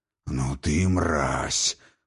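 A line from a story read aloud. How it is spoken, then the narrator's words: Old man, gritted teeth. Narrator (Russian): процедил сквозь зубы старый Хрофт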